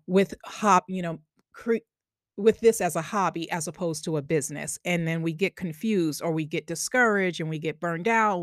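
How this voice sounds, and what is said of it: Long Island accent. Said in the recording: “Long Island accent”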